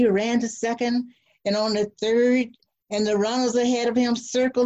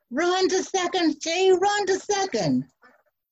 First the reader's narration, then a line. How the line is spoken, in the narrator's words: Everyone yelled